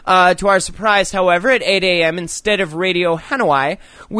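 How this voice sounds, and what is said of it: Usual voice. Nothing is said of it.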